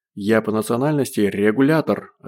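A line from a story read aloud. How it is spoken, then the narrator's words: Plain. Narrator (Russian): ответил цыган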